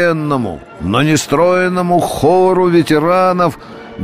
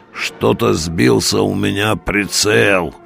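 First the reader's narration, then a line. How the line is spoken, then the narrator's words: Creaky good-natured bass. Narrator (Russian): с доброй ухмылкой скрипел он басом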